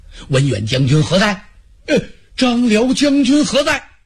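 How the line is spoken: Shout. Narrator (Chinese): 车胄还在马上喊呢

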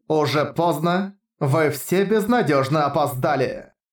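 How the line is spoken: Chilling commanding voice. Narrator (Russian): Закончила она властным голосом, от которого внутренности Харуюки будто сковал мороз

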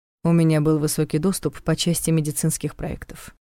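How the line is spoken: Dry objection. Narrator (Russian): сухо возразил Долгов

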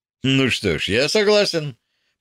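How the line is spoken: Almost cheerful. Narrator (Russian): почти весело сказал Хаусон

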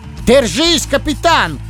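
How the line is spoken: Fox yelling. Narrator (Russian): заорал лис

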